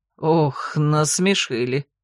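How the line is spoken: Laughing. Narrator (Russian): рассмеялся

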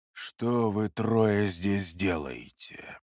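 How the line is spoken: Fairly calm question. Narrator (Russian): вопрос прозвучал довольно спокойно

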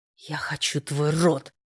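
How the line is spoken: Growled. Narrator (Russian): рыкнул

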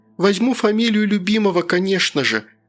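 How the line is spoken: Tender cooing. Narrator (Russian): проворковала она нежным голосом

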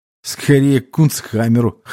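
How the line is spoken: Snorting. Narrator (Russian): хмыкнул я

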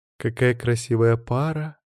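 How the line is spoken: Dreamy sigh, young woman. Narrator (Russian): мечтательно вздохнула младшая дочь матриарха Басир

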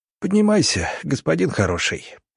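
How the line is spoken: Wheezy hoarse voice. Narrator (Russian): просипел коллега

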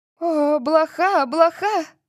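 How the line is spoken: Shriek. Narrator (Russian): Латиша взвизгнула

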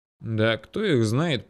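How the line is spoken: Mutter. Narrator (Russian): пробурчал я

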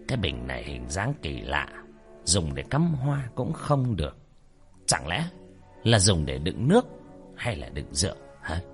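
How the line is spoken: Muttering, old man. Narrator (Vietnamese): Ông lẩm bẩm

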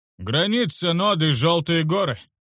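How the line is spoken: Loud announcement. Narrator (Russian): объявил водитель громко

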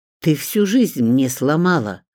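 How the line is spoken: Furious hiss. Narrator (Russian): прошипел Мунтяну с яростью

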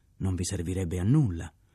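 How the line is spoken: Scandalized tone. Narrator (Italian): disse il capitano Gilles in tono scandalizzato

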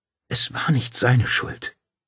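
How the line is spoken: Choked, muffled widow's voice. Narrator (German): die Witwe schlug die Hände vor ihr Gesicht und sagte mit erstickter Stimme

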